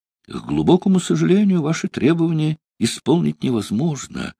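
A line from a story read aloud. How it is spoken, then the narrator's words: Gentle, smiling. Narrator (Russian): ласково улыбаясь, сказал адмирал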